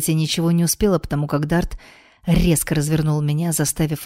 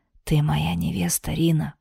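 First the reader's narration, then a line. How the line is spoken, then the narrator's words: Whisper. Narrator (Russian): прошептал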